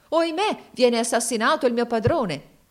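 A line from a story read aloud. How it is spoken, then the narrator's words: Exclaimed. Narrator (Italian): si esclamò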